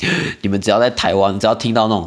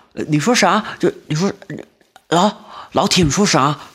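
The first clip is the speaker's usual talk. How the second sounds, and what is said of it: Put-on mainland Chinese accent. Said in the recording (Chinese): “这种这种口音的”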